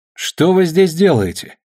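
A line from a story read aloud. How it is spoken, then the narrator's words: Loud call across yard. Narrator (Russian): Громко, чтобы слышно было через двор, спросила Тереза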